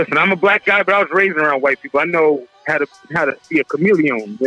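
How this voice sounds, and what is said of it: Usual voice. Nothing is said of it.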